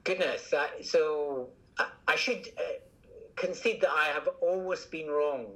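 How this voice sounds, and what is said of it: Scottish accent. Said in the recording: “From my accent, you can probably tell I'm Scottish.”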